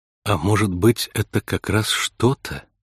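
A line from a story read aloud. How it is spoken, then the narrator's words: Soft suggestion. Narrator (Russian): мягко предположила Кейси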